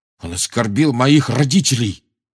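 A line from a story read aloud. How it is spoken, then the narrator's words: Growl. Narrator (Russian): прорычал Джордж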